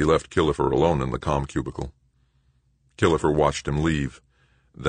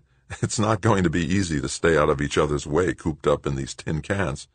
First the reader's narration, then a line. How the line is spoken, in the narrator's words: With a laugh, Doug replied